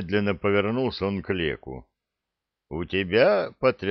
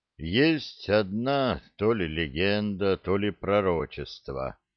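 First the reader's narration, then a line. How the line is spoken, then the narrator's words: Muffled, old man's voice. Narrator (Russian): глухо сказал старик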